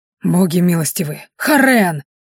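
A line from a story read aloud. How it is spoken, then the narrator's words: Terrified gasp. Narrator (Russian): В ужасе выдохнул один из оборотней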